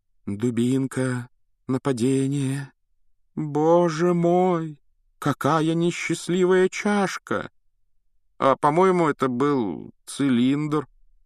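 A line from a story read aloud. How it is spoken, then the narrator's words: Uncertain drawl. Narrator (Russian): неуверенно протянул Рон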